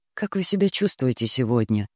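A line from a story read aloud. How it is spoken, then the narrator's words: Quiet, resigned question. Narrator (Russian): спросил тихо, не рассчитывая на ответ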